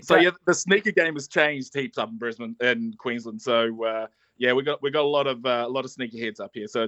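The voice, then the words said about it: New Zealand accent. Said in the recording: “a little bit of an accent there. I'm guessing that's not a Sunshine State accent ... I'm from New Zealand”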